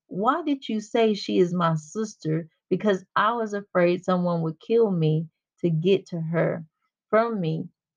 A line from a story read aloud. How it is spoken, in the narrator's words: Isaac replied